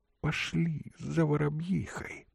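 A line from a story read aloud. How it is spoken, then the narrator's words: Whispered. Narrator (Russian): прошептала царица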